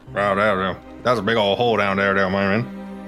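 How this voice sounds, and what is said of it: Boomhauer impression. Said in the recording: “wants to do a Boomhauer impression?”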